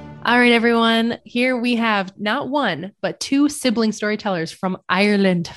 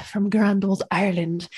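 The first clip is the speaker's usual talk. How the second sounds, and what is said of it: Put-on Irish accent. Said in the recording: “I don't know if I did a well enough dialectal impression there”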